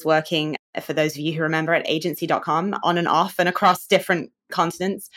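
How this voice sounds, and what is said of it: Slightly non-American accent. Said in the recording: “as you can hear a little bit, my accent is not fully American”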